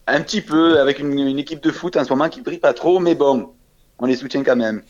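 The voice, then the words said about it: Southern French Marseille accent. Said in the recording (French): “deviné à mon accent, je suis de Marseille, en France, dans le sud de la France.”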